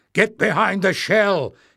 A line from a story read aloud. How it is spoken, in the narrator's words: Barda shouting